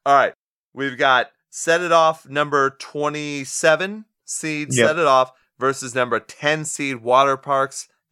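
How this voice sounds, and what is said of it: Hoarse, strained voice. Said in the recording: “my voice is going”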